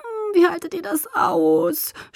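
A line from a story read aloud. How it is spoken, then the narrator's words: Girl's high clear groan. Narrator (German): stöhnte das Mädchen mit hoher, klarer Stimme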